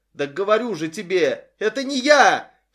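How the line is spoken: Panicked yell. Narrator (Russian): в панике завопил Глен

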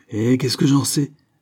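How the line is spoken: Father growling. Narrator (French): gronda le père

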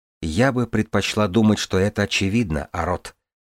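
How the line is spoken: Soft explanation. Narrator (Russian): мягко пояснила ему Джанель

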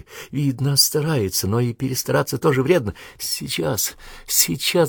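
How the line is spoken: Whispering. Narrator (Russian): шептала Надя

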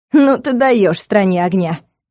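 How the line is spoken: Snorting. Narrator (Russian): хмыкнула

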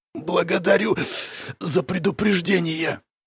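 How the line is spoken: Hoarse croak through clenched teeth. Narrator (Russian): Я кое-как разжал судорожно стиснутые зубы и прохрипел

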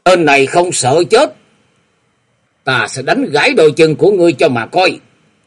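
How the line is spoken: Loud shout. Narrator (Vietnamese): quát to một tiếng

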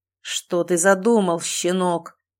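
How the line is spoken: Booming ruler's voice. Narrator (Russian): прогремел голос властелина

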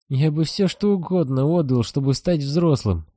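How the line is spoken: Moaning. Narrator (Russian): простонал Сиамец

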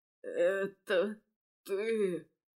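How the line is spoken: Hoarse rasp. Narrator (Russian): прохрипел Фео

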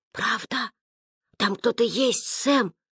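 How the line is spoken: Whisper. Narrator (Russian): шепнул Ян

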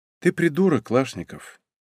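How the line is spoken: Sad. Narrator (Russian): печально уронила Лариса

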